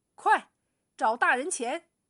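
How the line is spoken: Beaming, hurried order. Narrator (Chinese): 震得卢老爷眉开眼笑，急忙吩咐酒保

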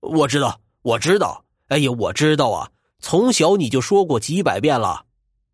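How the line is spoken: Overjoyed, words tumbling out. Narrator (Chinese): 传灯不禁是心花怒放，嘴里打滚似的说

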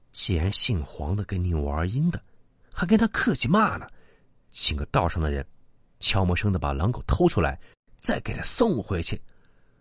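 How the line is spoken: Low voice. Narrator (Chinese): 他压低声音说道

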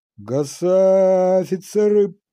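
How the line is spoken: Shouting. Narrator (Russian): прокричал Студзинский

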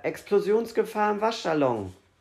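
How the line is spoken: Called out. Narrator (German): rief er

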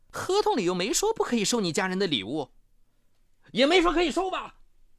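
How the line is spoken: Voice suddenly much louder. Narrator (Chinese): 赵少华声音突然高了八度

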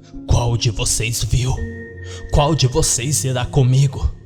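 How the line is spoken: Shout. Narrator (Portuguese): Ele gritou

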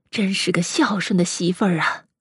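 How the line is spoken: Sighing. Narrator (Chinese): 卞夫人继续叹道

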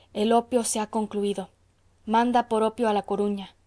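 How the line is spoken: Murmuring. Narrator (Spanish): murmuró el farmacéutico

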